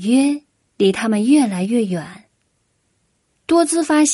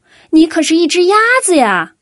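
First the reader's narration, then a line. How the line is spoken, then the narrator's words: Shouting. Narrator (Chinese): 多兹大叫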